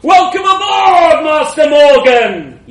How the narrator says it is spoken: roared

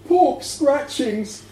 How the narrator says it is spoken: said, almost sobbing

